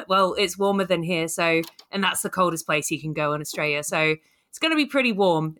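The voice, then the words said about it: Australian twang. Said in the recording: “you still very much have that Australian twang”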